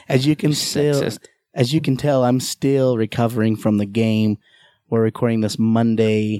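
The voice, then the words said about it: Hoarse, deep voice. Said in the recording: “I'm still pretty hoarse... my new voice... It's pretty deep. Like Barry White.”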